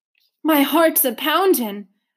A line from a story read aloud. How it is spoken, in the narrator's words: a man exclaimed